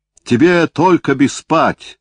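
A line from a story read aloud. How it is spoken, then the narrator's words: Shouting. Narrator (Russian): кричал он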